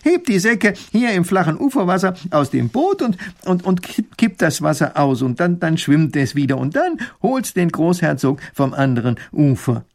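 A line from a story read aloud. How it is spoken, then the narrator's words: Called out. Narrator (German): ruft Professor Pfiffikus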